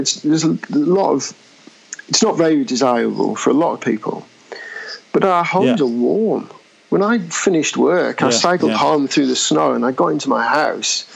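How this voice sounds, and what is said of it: English accent. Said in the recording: “might be able to tell from my accent, I'm from England.”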